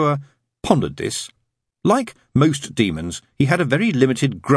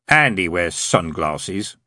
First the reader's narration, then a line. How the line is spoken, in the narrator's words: sneered Hastur